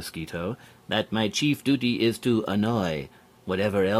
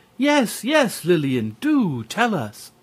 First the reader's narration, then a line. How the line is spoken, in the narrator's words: Waldo Lizard, Edna Elephant, and Lawrence Walrus, seeing that there was no way out, cried